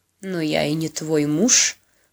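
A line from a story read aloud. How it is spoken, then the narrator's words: Wry, smirking speech. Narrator (Russian): хмыкнув, произнес он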